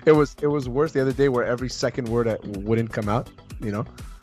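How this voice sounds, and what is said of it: Hoarse, strained voice, nearly lost. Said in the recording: “I lost my voice, but I sound sexy ... You also sound like you're not doing okay. Look, you sound tired. You sound ill. ... I just lost my voice.”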